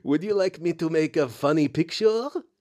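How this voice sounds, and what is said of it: Attempted French accent, sounds like Borat. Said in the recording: “I'm going to try and do a French accent here... It's Borat. I knew it was going to be Borat.”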